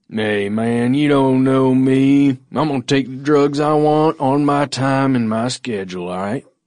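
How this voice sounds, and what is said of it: Put-on Southern US accent. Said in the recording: “southern accent there ... I think you nailed it”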